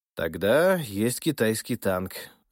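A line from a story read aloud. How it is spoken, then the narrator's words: Sighing servant. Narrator (Russian): вздохнул слуга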